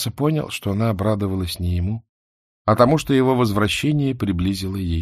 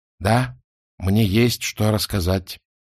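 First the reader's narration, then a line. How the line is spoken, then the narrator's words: Solemn announcement. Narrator (Russian): торжественно объявил Маса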